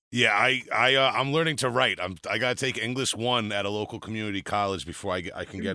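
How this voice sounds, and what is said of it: Long Island accent. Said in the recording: “Don't let the accent fool you. We're gonna get into Long Island accents”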